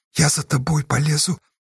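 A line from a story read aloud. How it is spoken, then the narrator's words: Quiet. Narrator (Russian): тихо ответил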